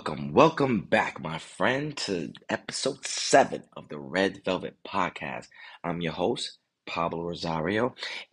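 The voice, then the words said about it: Voice sounds sick, under the weather. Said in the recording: “you may notice that my voice may sound a little different than normal. That's because I'm under the weather.”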